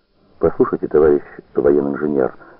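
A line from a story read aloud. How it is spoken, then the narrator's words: Plain. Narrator (Russian): сказала она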